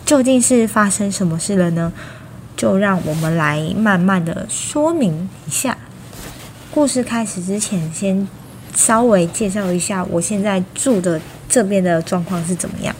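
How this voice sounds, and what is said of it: Quiet, lowered speaking voice. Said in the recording (Chinese): “我现在讲话有点小声...所以我讲话声音会压的比较低”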